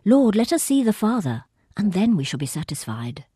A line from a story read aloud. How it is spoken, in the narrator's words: blurts out